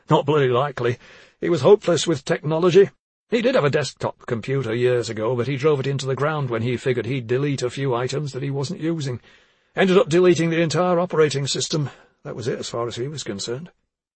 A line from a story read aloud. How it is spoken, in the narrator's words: Clive Druitt said with a short laugh